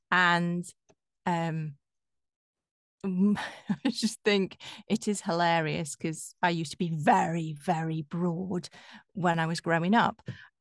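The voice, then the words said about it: Yorkshire northern English accent. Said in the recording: “your northern accent ... I have a Yorkshire accent, even though I've lived in London for 26 years ... I've still managed to hang on to my Yorkshire accent ... it maybe softens a bit”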